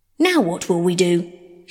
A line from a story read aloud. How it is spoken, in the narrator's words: snapped